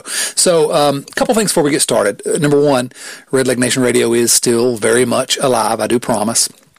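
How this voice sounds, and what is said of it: Southern American accent. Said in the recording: “this gorgeous southern accent”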